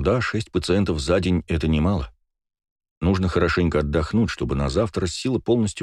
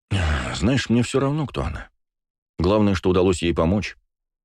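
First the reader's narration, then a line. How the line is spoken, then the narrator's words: Tired reply. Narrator (Russian): ответил устало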